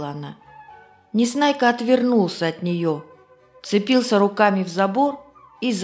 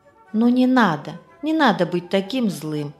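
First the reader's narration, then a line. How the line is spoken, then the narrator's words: Gentle, affectionate. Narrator (Russian): ласково заговорила она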